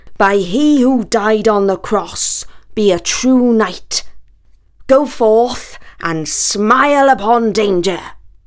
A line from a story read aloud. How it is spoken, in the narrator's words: Sir Lancelot boomed